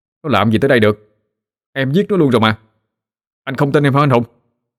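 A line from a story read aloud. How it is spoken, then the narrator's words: Snapping irritably. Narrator (Vietnamese): Tôi gắt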